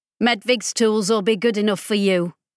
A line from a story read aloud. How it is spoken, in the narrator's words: Ollie said curtly